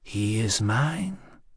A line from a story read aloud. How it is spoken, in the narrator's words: Stragella shrugged, modulating her voice to a persuasive whisper